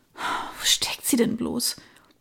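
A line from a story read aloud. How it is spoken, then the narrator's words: Murmured. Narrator (German): murmelte sie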